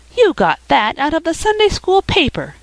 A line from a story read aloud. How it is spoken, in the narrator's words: cried Felicity